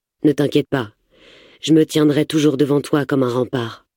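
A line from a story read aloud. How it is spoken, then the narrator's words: Reassuring murmur. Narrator (French): me glisse-t-il d'une voix rassurante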